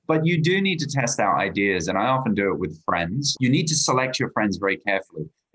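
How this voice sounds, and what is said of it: Australian accent. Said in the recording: “As you can hear from my accent, I'm Australian”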